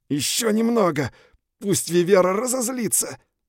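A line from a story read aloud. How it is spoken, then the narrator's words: Strained through clenched teeth. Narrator (Russian): выдавил я, стиснув зубы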